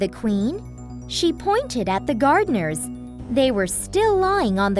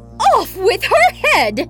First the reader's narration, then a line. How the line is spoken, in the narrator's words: she shouted